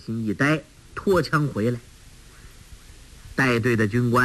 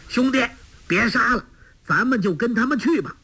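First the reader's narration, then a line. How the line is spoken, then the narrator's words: Loud shout. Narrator (Chinese): 纵声叫道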